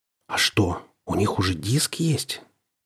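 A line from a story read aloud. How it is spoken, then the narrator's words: Quiet breathy voice. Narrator (Russian): Он заговорил тихо, с придыханием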